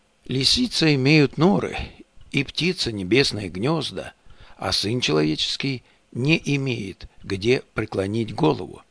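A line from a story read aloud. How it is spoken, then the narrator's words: Warm, sincere voice. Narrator (Russian): также сердечным и искренним голосом сказал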